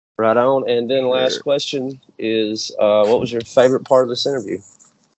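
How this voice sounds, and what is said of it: Southern US accent. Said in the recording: “you have a nice southern accent. It's different than mine.”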